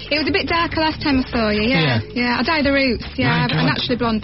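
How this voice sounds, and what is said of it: Broad Leeds accent. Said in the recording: “Leeds accent ... I tried to make it nice and broad for you”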